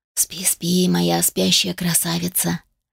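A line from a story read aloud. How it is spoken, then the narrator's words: Tender whisper. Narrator (Russian): прошептал он ласково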